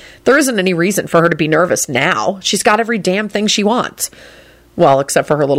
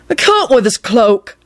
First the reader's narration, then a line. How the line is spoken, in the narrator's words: he moaned